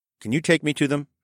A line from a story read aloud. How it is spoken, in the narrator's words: I asked